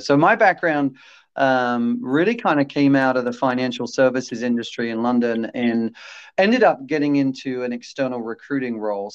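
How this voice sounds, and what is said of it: Non-American foreign accent. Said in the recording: “my accent, maybe giving it away, not from the US”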